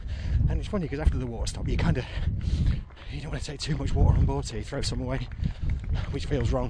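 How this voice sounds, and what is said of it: Breathless, panting while speaking. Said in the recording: “I'm pretty out of breath.”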